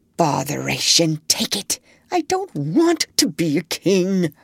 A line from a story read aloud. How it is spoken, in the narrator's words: I heard him still feebly muttering beneath his breath